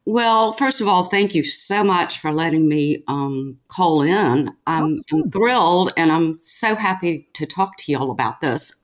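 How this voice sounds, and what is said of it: Southern American accent. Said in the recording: “She's from somewhere in the South, which I'm sure everyone will actually learn when you hear her speak... Hit us with that accent, girl.”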